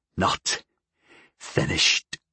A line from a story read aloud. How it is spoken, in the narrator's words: Pignot breathed